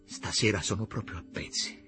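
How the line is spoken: Low voice. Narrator (Italian): le disse a voce bassa

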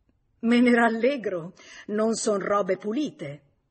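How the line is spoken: Mocking laughter. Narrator (Italian): Lei gli rise in faccia

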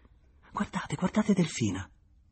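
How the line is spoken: Moved, awed voice. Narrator (Italian): Ella soggiunse con nella voce la commozione di chi vede una cosa di bellezza

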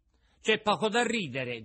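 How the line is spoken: Offended shout. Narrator (Italian): gridò Pinocchio impermalito

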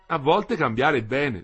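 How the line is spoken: Plain. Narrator (Italian): disse Ida

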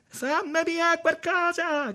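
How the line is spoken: Shouting. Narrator (Italian): gridava

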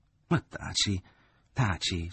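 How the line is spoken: Mother pleading. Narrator (Italian): supplicò la madre

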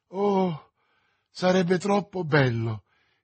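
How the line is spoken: Exclaimed. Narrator (Italian): esclamò Madame Bonacieux

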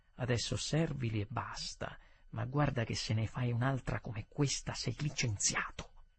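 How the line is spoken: Manager speaking quietly. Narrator (Italian): il direttore mi disse a bassa voce

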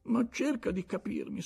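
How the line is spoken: Pleading. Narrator (Italian): supplicò lui

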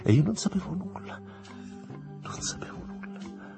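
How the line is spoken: Murmured. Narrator (Italian): mormorò

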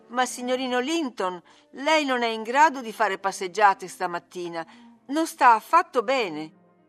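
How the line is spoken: Astonished, pained, fearful exclamation. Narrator (Italian): stupita e addolorata, e l'esclamazione di gioia che aveva sulle labbra si trasformò in una di timore

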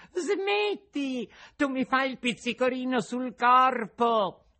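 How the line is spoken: Small laughing voice. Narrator (Italian): la solita vocina che gli disse ridendo

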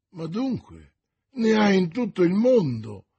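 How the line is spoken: Exclaiming. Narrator (Italian): esclamò D'Artagnan

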